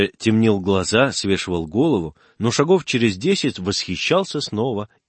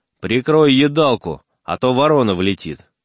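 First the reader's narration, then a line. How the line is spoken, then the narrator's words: Stern. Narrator (Russian): Генька говорил ему строго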